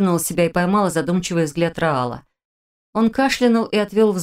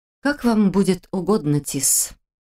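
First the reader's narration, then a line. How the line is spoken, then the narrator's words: Husky voice. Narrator (Russian): ответила хрипловатым голосом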